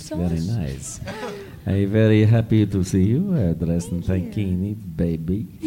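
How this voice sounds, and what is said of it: Russian accent. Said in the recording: “Where are you from in Russia? I just love your accent?”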